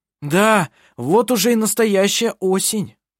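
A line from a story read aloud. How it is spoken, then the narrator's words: Shout. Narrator (Russian): прокричал он ей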